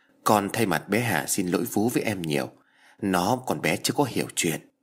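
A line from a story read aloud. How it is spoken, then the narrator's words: Soft, sad. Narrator (Vietnamese): khẽ buồn rầu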